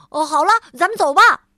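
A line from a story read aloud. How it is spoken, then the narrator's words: Shouting. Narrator (Chinese): 他喊道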